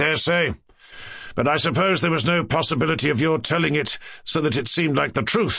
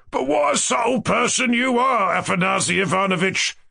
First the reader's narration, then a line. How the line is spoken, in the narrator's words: cried Ferdyshenko